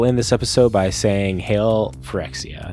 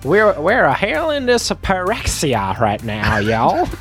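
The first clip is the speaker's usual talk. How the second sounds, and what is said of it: Put-on Southern US accent. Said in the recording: “everyone tries to do their best southern accent while saying Phyrexia ... in our southern accent”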